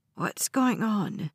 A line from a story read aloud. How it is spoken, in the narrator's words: the old woman asked in a rattly voice